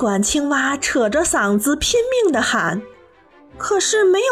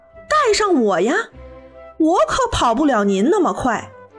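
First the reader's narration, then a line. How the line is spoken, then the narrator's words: Loud shout. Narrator (Chinese): 青蛙大声叫道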